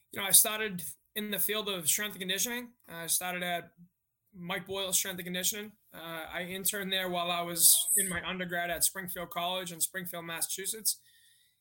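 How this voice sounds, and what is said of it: Slight Boston accent. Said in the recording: “I grew up 3 miles north of Boston. You'll hear the accent a little bit.”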